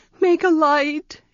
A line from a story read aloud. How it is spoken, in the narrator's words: she pleaded